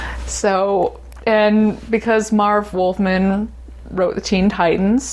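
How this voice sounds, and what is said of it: Usual voice. Nothing is said of it.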